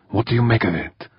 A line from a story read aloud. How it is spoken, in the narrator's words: Urbane whispered tightly